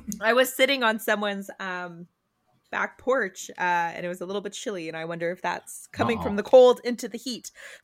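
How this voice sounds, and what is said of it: Hoarse, fading voice. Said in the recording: “I'm kind of losing my voice a little bit today”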